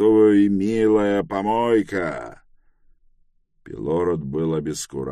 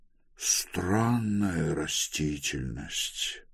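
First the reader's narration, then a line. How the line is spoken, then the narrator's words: Muttered. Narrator (Russian): пробормотал он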